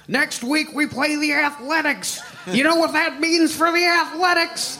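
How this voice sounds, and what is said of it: Walter Matthau impression. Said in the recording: “I love your Walter Matthau impression.”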